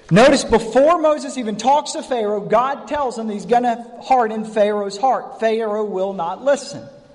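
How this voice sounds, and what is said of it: North Carolina Southern accent. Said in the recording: “that's my North Carolina Pharaoh ... they made fun of my accent”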